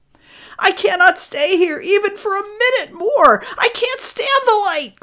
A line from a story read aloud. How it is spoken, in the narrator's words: cried Poverty